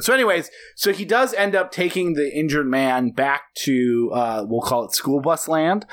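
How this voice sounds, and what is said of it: Slightly hoarse, strained voice. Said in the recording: “I'm losing my voice a little”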